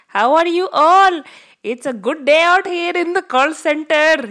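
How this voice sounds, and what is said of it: Put-on Indian accent. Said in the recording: “I'm just doing my Indian accent, so I thought that I would talk like this”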